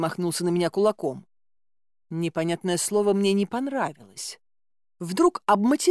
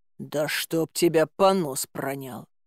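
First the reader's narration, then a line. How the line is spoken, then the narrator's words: Hissed. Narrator (Russian): прошипела я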